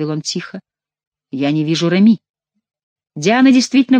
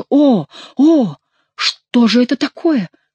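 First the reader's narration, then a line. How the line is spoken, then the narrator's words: Exclamation. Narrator (Russian): воскликнул герцог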